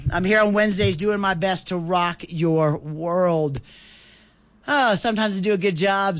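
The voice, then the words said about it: Raspy voice. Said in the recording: “by the sound of this raspy voice”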